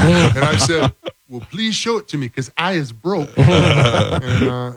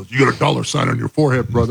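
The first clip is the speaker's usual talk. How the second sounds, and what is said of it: Imitates another person's voice. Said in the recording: “I did an impersonation ... Of him? ... do your Hulk”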